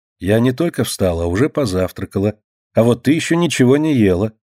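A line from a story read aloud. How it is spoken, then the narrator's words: Calm reply. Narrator (Russian): спокойно отвечает мать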